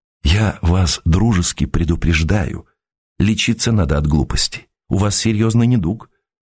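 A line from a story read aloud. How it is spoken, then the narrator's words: Even, gentle reply. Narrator (Russian): ровно и ласково отозвался Константин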